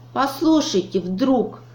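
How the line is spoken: Exclaiming. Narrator (Russian): воскликнул Чуб

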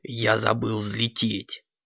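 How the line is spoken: Quiet reply. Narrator (Russian): тихо ответил Кракс

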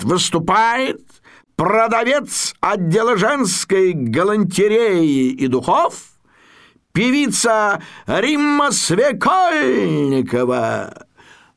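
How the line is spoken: Formal announcer's voice. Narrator (Russian): Ведущий программы, такой манекеноподобный гражданин Масленков, таким специально объявлятельным голосом говорит

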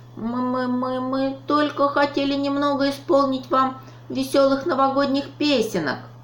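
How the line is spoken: Squeaky voice. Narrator (Russian): пропищал Дроня

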